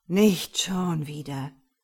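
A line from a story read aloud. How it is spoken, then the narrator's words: Groaning. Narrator (German): stöhnt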